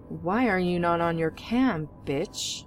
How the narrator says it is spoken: he said loudly

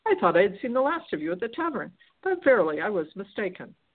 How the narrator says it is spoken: ejaculated in a pleased tone

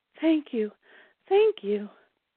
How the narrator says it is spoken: the panting woman murmured

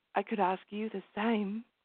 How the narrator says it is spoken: she replied quietly

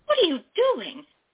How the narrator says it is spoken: Dory cried

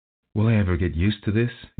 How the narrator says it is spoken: sighed

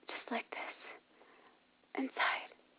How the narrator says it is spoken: she panted

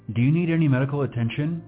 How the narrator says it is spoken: the officer asked

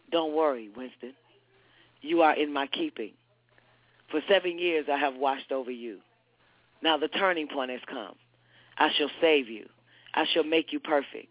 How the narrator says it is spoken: A voice murmured in his ear

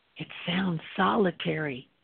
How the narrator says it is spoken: Gavir whispered

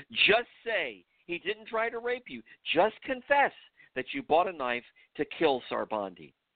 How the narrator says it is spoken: One of the tall, muscular interrogators looked Rahane intently into her eyes and screamed

